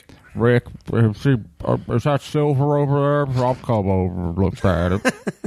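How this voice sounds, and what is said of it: Impression of Chumley. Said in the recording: “Chumley's like, I can't do it. Let's see, Chumley. ... you are good. You're like a fucking good guy at impersonating.”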